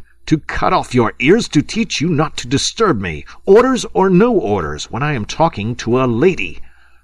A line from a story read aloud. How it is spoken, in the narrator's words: screamed suddenly Lieutenant Feraud